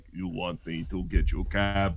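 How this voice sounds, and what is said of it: Russian-sounding accent imitation. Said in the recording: “your Russian accent came out again ... you could pass for Bulgarian”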